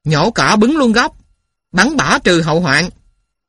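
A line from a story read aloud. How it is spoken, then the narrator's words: Shouted. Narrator (Vietnamese): Thằng ác ôn hét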